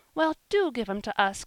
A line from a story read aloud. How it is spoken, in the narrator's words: cried Polly